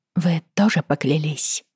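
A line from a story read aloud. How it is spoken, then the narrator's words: Quiet question. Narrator (Russian): тихонько спросила Бриана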